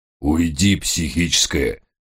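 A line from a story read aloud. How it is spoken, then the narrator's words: Growling. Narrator (Russian): рычал бедный Гесс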